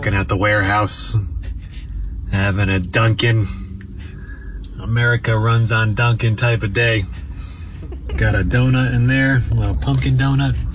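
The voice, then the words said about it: Northeast US, New Jersey-sounding accent. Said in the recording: “his Northeast accent ... Very Jersey sounding.”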